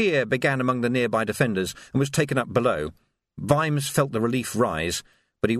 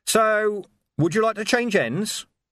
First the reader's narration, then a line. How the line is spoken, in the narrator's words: He called out